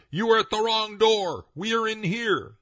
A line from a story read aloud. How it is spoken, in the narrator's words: he shouted